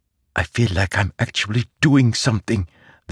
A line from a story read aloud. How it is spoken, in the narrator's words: the younger man whispered